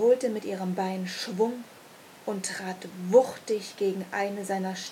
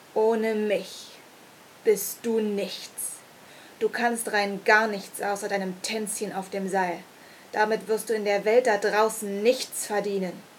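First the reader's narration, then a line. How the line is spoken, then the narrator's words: Sneering, demeaning laugh. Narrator (German): lachte höhnisch und erwiderte erniedrigend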